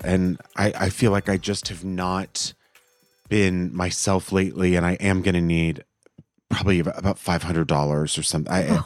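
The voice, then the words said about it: Sick, congested voice. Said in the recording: “I'm getting over a cold ... You can hear it in my voice, can't you?”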